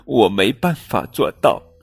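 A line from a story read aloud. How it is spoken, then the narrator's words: Crying. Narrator (Chinese): 它 哭鼻子说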